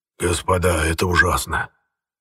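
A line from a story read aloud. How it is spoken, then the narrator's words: Governor speaking hoarsely. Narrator (Russian): хрипло проговорил наместник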